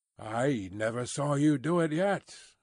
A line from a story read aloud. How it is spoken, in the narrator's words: muttered Carton